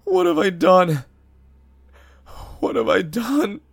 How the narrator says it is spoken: he sobbed

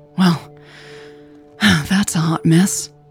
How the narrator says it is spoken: she sighed

